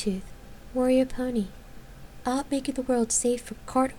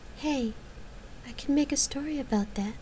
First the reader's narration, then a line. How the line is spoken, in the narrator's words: the bard murmured